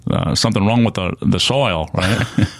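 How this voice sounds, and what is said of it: Imitates another person's voice. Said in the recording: “That main accent... that impression”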